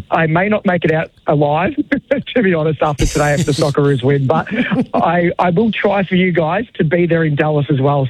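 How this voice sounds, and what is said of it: Worn-out, strained voice. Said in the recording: “My voice is taking a battery.”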